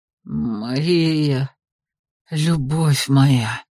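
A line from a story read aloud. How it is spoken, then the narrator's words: Breathy exhale. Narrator (Russian): Выдохнул он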